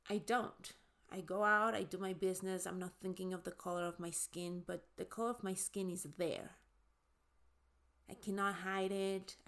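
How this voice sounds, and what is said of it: Noticeable foreign accent. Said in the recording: “I cannot hide my accent. I mean, you can hear it right now. ... people that are, you know, have trouble understanding me ... because of my accent.”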